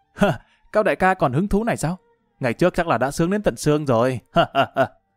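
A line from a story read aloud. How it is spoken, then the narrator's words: Laughing. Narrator (Vietnamese): Lã Văn Vinh bật cười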